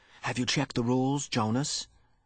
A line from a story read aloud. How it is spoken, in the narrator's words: Pierre was always whispering solemnly